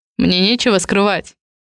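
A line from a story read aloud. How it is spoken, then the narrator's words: Muffled, dull reply. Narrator (Russian): глухо отзывается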